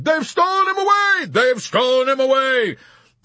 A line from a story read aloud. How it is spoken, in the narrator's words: screamed someone else